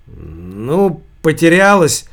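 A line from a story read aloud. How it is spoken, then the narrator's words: Irritated. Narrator (Russian): раздраженно проговорил Сергей Костырьков, муж Марии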